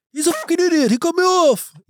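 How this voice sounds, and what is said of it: Max Verstappen accent impression. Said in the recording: “He's hard to impersonate, I think, his accent.”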